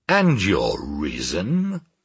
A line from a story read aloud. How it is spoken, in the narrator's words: said my uncle, in a peculiarly bantering tone